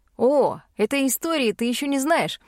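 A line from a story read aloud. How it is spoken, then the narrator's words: Chuckle. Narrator (Russian): хохотнул Пит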